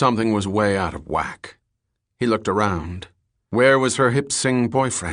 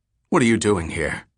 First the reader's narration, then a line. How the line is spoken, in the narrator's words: asked